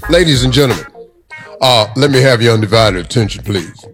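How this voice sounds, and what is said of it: Deep announcer-style radio voice. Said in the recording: “This is my radio voice. This is the voice I choose to do radio in. Now, it's very close to my real voice”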